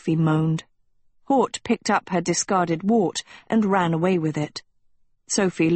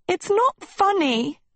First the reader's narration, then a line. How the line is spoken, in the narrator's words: Sophie wailed